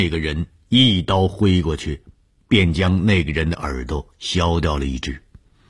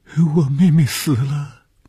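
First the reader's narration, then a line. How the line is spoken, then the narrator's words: Crying. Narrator (Chinese): 这是一个可怜的女孩 哭起来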